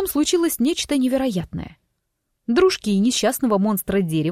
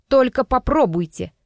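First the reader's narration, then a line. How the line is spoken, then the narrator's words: Menacing warning. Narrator (Russian): предупредила я, стараясь, чтобы голос звучал как можно более грозно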